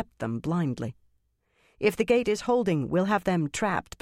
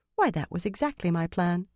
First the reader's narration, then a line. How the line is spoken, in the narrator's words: Elaine said sweetly